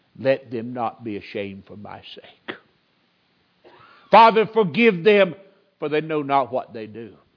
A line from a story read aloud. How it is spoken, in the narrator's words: He cries in mercy